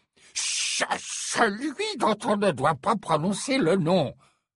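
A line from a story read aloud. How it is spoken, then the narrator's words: Growling. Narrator (French): gronda Fudge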